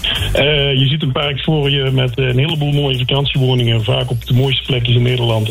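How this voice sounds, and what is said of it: Accent resembling Peter Gerrit's. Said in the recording (Dutch): “je hebt ook een beetje het accent van Peter Gerrit”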